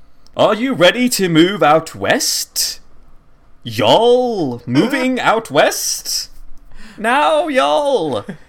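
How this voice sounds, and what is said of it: British voice with bad Southwestern twang. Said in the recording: “a man with a heavy British accent ... He has the most ridiculous Southwestern accent ... He's not even trying. He's still British, but then says y'all at random times”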